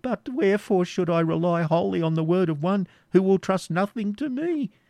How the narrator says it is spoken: said Isaac timidly

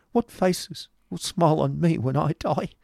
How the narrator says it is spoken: cried his companion, shivering

